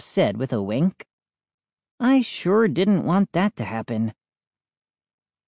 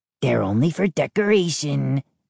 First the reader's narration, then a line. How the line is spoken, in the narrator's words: he sneered